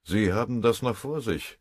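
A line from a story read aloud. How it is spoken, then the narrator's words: Commander's growl. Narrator (German): knurrte der Bataillonskommandeur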